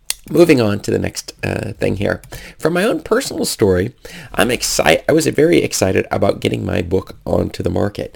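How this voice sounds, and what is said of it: Congested voice from a cold. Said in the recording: “I have a bit of a cold”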